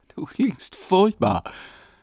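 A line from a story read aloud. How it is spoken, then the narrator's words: Laughing. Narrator (German): sagte Karin lachend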